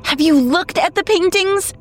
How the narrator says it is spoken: she cried

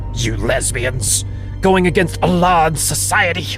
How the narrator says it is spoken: spat, and his fury grew

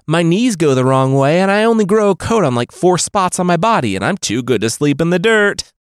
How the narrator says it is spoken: Rabbit Boy called out

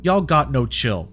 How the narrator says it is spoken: Thomas laughed

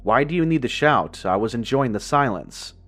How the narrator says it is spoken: the figure answered in an annoyed tone

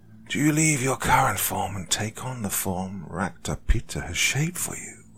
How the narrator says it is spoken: Another voice hisses out rapidly

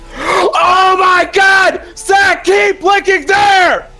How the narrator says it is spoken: Kelly screamed

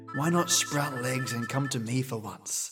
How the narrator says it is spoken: I muttered to myself

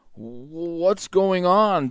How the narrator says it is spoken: Bagheera asked Mowgli sleepily

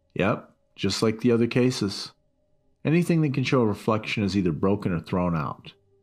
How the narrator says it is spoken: he said

